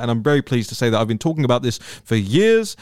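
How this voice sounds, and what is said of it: Speaks with a noticeable accent. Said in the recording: “you can probably tell from my accent”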